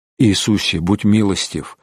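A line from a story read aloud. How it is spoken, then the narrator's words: Muttered prayer. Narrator (Russian): бормотал стоящий рядом Фричко Ностиц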